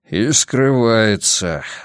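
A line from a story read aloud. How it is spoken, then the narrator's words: Sighing. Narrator (Russian): вздохнул Карлос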